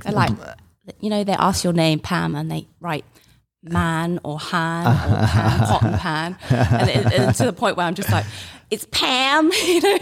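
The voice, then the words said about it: London English accent. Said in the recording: “You have an accent. Where are you from originally? ... I'm from London.”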